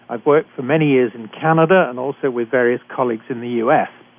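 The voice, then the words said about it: British accent. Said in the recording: “I'm a physician trained in Britain, as you can tell from my accent.”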